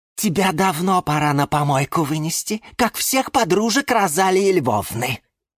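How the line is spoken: Angry hiss. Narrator (Russian): злобно шипела орхидея Галатея

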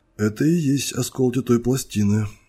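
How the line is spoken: Timid voice. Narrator (Russian): робко произнес он

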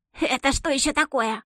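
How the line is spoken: Loudly indignant. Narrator (Russian): громко возмутилась

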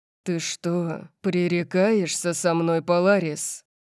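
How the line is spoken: Growled. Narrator (Russian): Он зарычал

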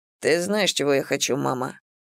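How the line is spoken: Quiet speech. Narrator (Russian): тихо молвил Ситрик

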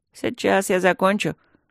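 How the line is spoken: Mocking reply. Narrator (Russian): насмешливо ответил природник

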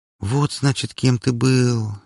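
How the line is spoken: Sigh. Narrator (Russian): вздохнула она

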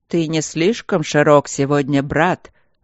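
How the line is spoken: Growling voice like creaking trees. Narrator (Russian): раздался другой голос, рычавший, словно множество деревьев шумело и трещало под грозовым ветром

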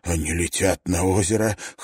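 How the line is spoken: Hoarse whisper. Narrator (Russian): хрипло прошептал Райленд

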